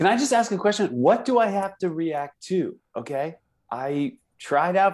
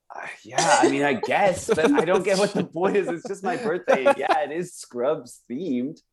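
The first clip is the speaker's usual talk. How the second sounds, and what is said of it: Imitates another person's voice. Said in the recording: “that was a perfect Zach Braff impression ... this kid's good”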